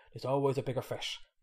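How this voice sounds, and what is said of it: Put-on Irish accent. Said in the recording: “that was an Irish accent”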